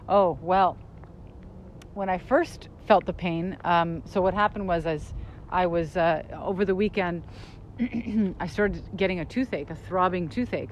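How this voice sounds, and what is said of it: Slightly slurred speech. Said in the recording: “my mouth is a little, like I'm slurring my speech. You can probably hear that. ... Just came from the dentist. ... my face is kind of numb. So I'm slurring a little bit”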